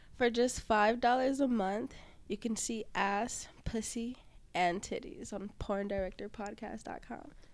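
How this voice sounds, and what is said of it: Sultry, seductive commercial voice. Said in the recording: “use your sexy voice. Use on Panther, Sex Panther.”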